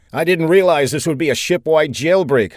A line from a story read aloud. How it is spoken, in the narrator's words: Saffinger called out to the woman